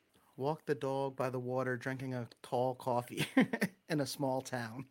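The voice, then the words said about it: Strong Long Island accent. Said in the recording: “it's straight Long Island... That's a whole lot of Long Island accent that you're getting right there... all the accents coming out”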